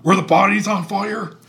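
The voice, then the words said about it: Imitates another person's voice. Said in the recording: “I'm going to do my imitation.”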